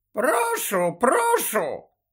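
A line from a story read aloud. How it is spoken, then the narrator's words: Very high, hoarse voice. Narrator (Ukrainian): відповів Додж дуже високим, хриплим голосом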